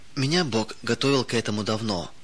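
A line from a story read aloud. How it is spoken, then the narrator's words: Calm. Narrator (Russian): спокойно произнесла она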